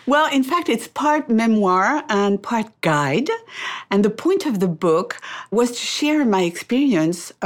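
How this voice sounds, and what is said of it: French-accented English. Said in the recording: “I love this French accent of yours”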